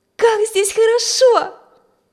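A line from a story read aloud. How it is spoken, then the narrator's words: Exclamation. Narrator (Russian): воскликнула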